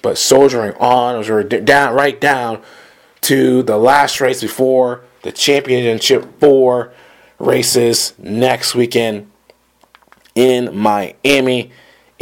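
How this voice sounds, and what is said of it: Sick, under-the-weather voice. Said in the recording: “excuse my voice again ... Kind of a little under the weather, as you can tell by my voice.”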